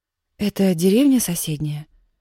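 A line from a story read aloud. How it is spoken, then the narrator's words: Plain question. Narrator (Russian): спросила Яна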